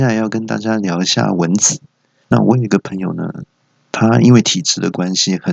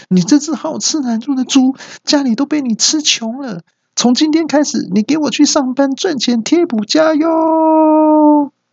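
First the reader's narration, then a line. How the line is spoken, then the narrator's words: Shouting. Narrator (Chinese): 爸爸……大叫说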